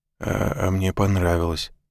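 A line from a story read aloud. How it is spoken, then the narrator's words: Murmured. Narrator (Russian): пробормотал он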